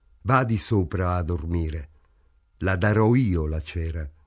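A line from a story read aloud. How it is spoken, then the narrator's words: Calm voice. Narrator (Italian): disse con voce pacata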